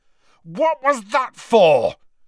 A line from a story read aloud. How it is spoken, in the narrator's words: Harry bellowed